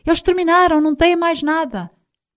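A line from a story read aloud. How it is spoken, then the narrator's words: Shouting. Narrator (Portuguese): Enzo gritou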